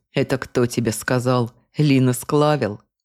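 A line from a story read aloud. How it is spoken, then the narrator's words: Contemptuous snort. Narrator (Russian): Презрительно фыркнул Юргас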